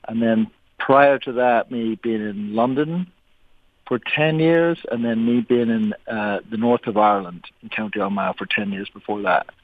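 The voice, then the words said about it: Mixed accent from several places. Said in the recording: “There's no one on our show who sounds like you. But your accent is so great. It's not straightforward. It's kind of a combination of a whole bunch of different places ... it sounds like I'm an imposter ... Or that you're a little bit drunk.”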